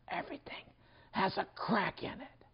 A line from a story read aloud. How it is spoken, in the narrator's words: Gunta whispered softly to the minister